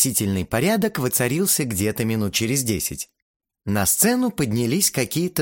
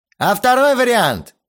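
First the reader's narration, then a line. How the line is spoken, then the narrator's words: Shouted. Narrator (Russian): выкрикнул кто-то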